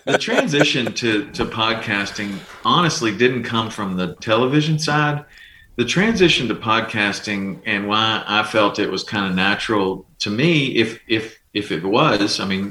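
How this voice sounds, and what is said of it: Calm southern drawl. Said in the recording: “it's like a calming voice ... my southern drawl”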